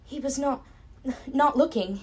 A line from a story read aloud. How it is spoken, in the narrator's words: stammered, struggling to find the words in English